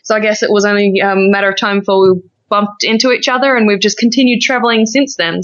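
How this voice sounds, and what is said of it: Australian accent. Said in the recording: “I'm Australian, as you can probably tell by the accent”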